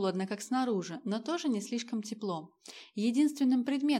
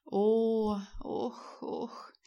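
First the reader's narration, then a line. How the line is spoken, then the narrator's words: Young man moaning asleep. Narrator (Russian): застонал во сне юноша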